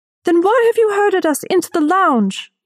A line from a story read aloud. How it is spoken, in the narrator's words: a woman shouted